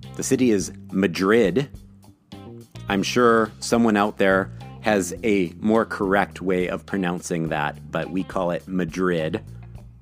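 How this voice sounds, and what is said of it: Midwestern American accent. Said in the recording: “respect my Midwestern accent.”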